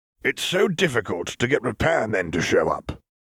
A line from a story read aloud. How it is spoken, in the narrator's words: grumbled Tom's father